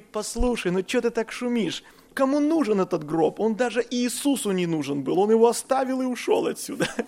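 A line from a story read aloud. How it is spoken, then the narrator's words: Calm. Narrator (Russian): А Виктор Клименко спокойно встал … и говорит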